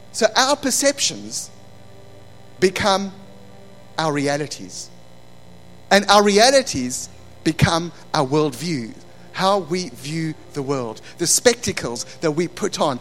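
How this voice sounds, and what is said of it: Non-local accent, shaped by UK. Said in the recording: “he has a different accent ... This accent's been 16 years in the making in the UK.”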